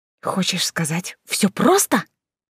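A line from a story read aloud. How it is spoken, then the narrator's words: Whispered. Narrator (Russian): прошептала Алиса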